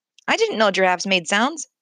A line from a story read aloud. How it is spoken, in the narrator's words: said one